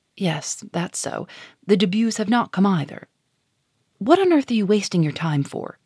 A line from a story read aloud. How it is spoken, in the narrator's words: she added sharply, raising her voice